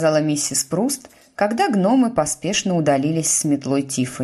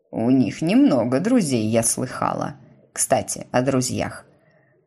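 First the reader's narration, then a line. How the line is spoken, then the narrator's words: Falsely casual tone. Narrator (Russian): продолжила она фальшиво-небрежным тоном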